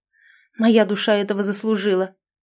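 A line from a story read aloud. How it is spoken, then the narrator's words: Bitter exhale. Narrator (Russian): с горечью выдохнула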